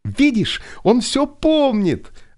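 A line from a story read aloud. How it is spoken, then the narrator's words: Joyful exclamation. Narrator (Russian): радостно воскликнула Соня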